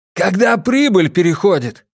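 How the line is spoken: Shout. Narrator (Russian): крикнул Джеспер

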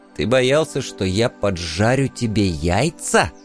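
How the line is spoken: Hissed, barely restrained. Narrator (Russian): едва сдерживаясь, прошипел я

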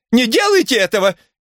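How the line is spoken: Shrill shriek. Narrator (Russian): Миссис Брук пронзительно завизжала

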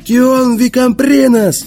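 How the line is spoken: Yelled. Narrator (Russian): заорал он

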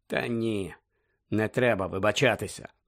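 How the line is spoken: Muttered. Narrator (Ukrainian): пробурмотів Сіріус

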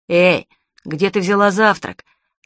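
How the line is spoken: Stern question. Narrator (Russian): строго спросил Питер

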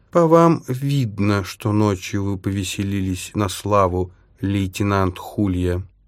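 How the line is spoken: Even, flat voice. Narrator (Russian): ровным голосом произнес он

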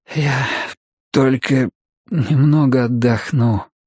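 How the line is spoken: Weak, strained voice. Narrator (Russian): выдавил Мэтью слабеющим голосом

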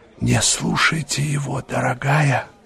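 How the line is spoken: Whisper. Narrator (Russian): шепнула ей леди Агата

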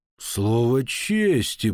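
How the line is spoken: Drawled. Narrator (Russian): протянул он

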